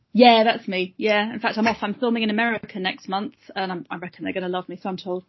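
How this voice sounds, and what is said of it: Posh English accent. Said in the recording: “I've got this stupid posh voice, as you can hear... authoritative and scary... clean English accent.”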